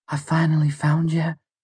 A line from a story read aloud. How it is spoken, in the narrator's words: she said breathlessly